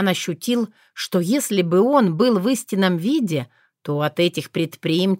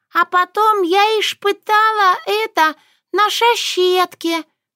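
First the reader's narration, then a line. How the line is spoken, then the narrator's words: Narrating. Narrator (Russian): поведала Норушенко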